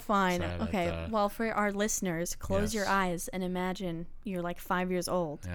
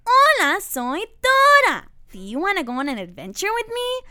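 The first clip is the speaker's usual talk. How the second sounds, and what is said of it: Cartoon character voice impression. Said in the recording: “my Dora impression ... A spot on Dora impersonation.”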